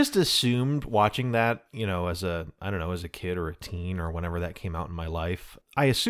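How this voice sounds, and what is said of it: Usual voice. Nothing is said of it.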